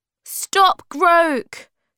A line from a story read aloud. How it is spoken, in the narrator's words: cried Moomin Troll